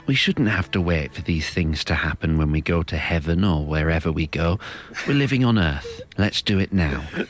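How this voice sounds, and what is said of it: Brilliant Alan Bennett impression. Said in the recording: “does a brilliant Alan Bennett impression”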